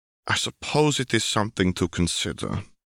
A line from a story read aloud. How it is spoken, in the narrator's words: he murmured